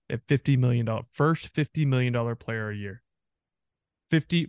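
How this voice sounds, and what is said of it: Texas accent. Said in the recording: “It's your Texas accent coming out. Sometimes it kicks in.”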